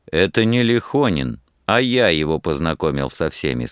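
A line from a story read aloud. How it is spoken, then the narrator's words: Plain. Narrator (Russian): сказал Рамзес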